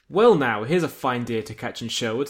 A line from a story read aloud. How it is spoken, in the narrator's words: says your captor